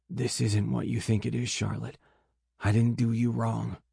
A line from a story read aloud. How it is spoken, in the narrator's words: I whisper hoarsely